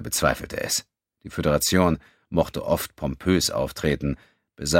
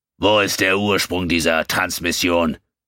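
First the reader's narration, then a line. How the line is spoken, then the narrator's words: Barking harsh command. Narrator (German): bellte Kutal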